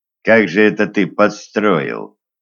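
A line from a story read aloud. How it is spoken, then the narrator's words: Quiet question. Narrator (Russian): тихонько спросил Глеб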